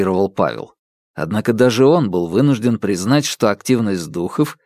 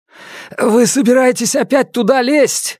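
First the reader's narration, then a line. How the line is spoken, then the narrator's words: Exclaiming. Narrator (Russian): воскликнул Раневский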